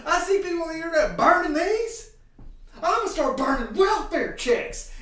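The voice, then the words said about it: Imitates another person's voice. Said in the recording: “This is just my impression.”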